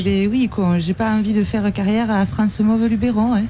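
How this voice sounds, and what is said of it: Very strong regional French accent. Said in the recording (French): “vous avez euh, vraiment un accent à la limite du handicap ... avec eh ben, un tel accent”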